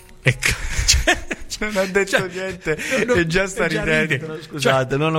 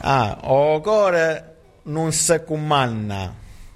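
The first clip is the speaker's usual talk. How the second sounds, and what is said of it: Neapolitan saying with slight Calabrian accent. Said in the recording (Italian): “Devi leggere in napoletano il detto. ... Detto un po' con l'accento un filo calabrese.”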